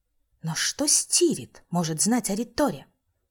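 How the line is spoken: Hissing. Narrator (Russian): не спросила, а скорее прошипела я

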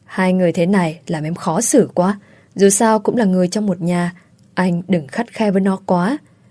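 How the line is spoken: Soft, restrained. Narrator (Vietnamese): không dám cười, chỉ khẽ nói

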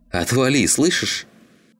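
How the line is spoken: Snapped harshly. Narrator (Russian): Рявкнул Клим

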